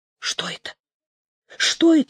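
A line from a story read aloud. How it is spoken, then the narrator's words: Frightened question. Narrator (Russian): испуганно спрашивала Елизавета Алексеевна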